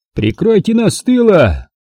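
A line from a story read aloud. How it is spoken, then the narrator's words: Shouting. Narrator (Russian): Дайвер кричал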